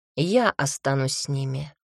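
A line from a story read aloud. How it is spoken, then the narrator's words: Calm. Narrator (Russian): спокойно сказал Маркель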